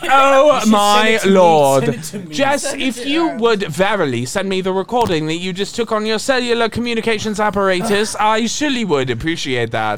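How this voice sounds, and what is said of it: Put-on accent, odd formal tone. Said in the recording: “I am stuck in this accent, and I cannot correct the tone of my voice.”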